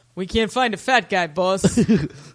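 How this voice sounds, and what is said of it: Put-on accent. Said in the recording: “Why do you have that accent?”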